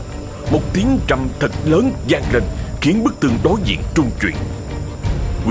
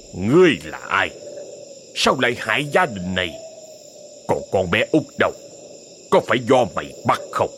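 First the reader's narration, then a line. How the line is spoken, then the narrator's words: Resentful growl. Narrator (Vietnamese): Quỷ cẩu bỗng cất giọng gầm gừ đầy oán hận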